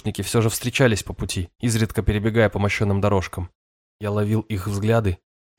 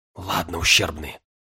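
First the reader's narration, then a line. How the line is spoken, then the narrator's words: Whisper. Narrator (Russian): прошептал я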